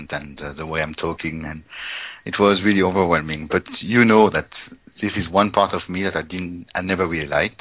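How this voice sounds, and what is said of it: Foreign-accented English. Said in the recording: “I just melt with your accent ... my voice, my accent”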